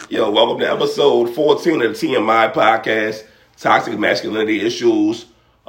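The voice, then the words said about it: Hoarse, cracking voice from illness. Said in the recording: “I'm under the weather a little bit, so my voice is kind of cracking. ... I don't sound as luxurious as I normally do.”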